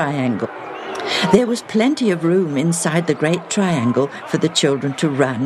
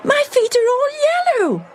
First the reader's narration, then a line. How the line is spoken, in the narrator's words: squealed again